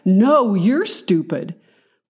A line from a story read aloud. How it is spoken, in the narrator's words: wanted to angrily reply